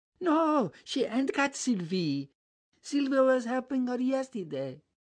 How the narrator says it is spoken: piped Bibi

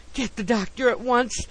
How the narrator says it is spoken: wailed Mr

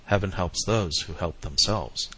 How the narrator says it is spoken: murmured

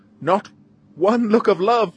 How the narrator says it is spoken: she cries

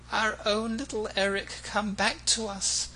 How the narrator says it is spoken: cried the Mombays in unison

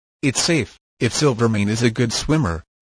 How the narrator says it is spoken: replied Mezcal

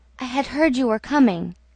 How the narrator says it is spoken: She murmured

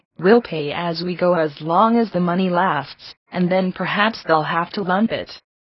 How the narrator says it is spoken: Miss Lydia would calmly say

